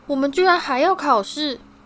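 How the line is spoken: Loud wail. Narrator (Chinese): 西莫·菲尼甘大声哀嚎

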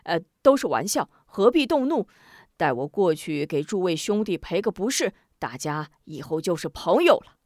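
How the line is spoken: Smiling. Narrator (Chinese): 回身一笑

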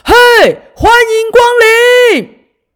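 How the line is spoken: Happy, nervous, loud. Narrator (Chinese): 大猩猩老板 很开心又很紧张的，马上大声的说

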